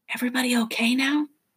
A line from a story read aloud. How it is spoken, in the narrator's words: the professor whispered